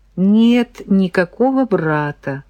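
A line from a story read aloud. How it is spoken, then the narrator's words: Sighing. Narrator (Russian): вздохнула Леся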